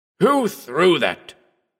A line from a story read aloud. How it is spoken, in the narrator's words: he demanded in a choking voice